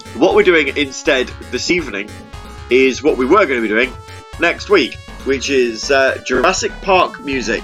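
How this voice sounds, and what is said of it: Sore-throated, congested voice. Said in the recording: “I've got a bit of a sore throat as well. This cold, I don't know where I've got it from. This cold is attacking me everywhere”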